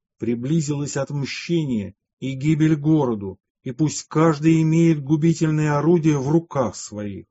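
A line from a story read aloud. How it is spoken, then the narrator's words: Mighty, menacing divine voice. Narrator (Russian): послышался еще сильнейший голос Божий, взывающий грозно и страшно, и так говорящий пророку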